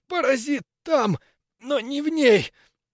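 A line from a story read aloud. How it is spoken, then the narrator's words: Strangled wheeze. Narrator (Russian): Сдавленно просипел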